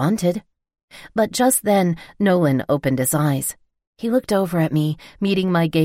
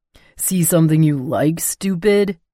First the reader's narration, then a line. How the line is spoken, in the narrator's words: taunted